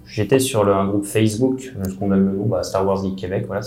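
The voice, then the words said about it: French accent. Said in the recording (French): “j'étais français à mon accent”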